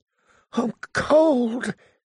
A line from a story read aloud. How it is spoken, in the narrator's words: he said again, so faintly